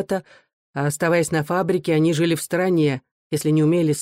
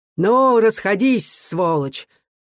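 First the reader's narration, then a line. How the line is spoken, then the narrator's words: Muffled, dull voice. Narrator (Russian): глухо говорил он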